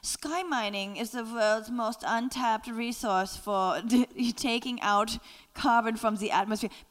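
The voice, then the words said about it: Put-on German-like accent. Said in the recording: “What is that accent? It's kind of like half... I think he was Scandinavian, but okay. I can only attempt German.”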